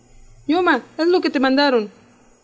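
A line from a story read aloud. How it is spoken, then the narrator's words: Shouted. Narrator (Spanish): gritó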